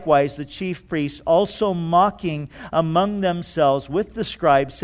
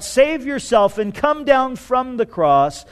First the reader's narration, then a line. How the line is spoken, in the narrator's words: they cried out